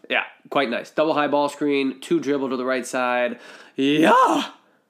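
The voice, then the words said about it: Voice strained from being unwell. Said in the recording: “I apologize for my voice ... I am a little under the weather”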